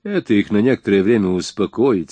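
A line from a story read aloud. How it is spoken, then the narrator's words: Plain. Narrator (Russian): сказал я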